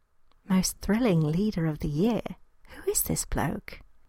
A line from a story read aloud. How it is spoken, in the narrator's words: she asked in an undertone